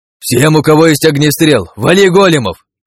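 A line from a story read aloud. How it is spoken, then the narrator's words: Shout. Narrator (Russian): крикнул я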